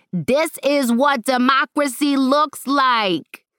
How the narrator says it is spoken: Zara shouting and clapping on every syllable

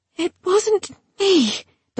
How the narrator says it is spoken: Dulcinea wheezed in no small alarm

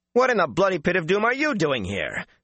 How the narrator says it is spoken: Matt snapped

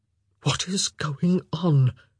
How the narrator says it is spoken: he whispered

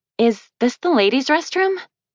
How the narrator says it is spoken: She stammered

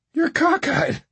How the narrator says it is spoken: I said

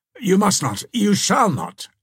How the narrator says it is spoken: exclaimed Ivanhoe

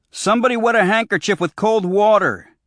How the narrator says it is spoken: he shouted

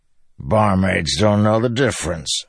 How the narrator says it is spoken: Bashan grumbled

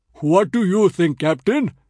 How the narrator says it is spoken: he bellowed amiably

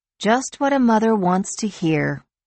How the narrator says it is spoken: Lori said dryly

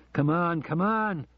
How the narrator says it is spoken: he shouted out loud

